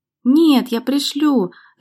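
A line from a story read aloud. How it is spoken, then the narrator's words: Happy laughing promise. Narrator (Russian): рассмеявшись счастливым смехом, пообещала Валерия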